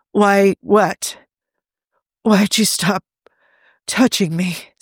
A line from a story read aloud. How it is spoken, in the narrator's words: Steve rasped